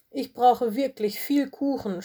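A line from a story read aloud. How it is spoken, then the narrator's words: Groaning. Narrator (German): stöhnte Lola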